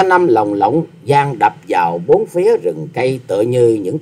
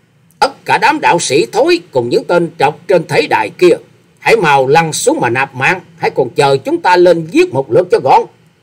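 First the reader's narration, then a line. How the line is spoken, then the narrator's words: Harsh loud shout. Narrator (Vietnamese): Quái nhân áo xanh gằn giọng quát to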